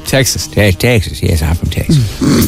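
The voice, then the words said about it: Put-on American accent. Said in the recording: “I can do an American accent. I can pretend I'm from Punxsutawney.”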